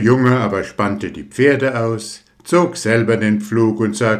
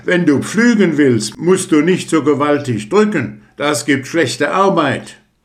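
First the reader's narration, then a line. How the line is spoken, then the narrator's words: Exasperated call. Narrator (German): Der Bauer konnte das nicht mit ansehen und rief ihm zu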